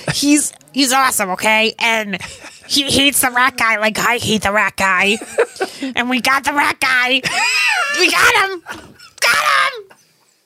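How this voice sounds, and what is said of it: Cartoonish cat character voice. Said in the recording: “you gotta do the voice”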